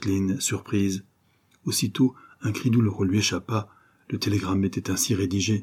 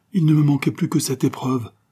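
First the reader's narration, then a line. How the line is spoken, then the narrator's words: Sobbing exclamation. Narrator (French): s'écria Jacqueline en un sanglot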